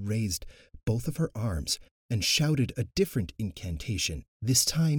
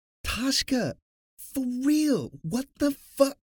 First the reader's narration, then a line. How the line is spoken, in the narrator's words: Kivi screamed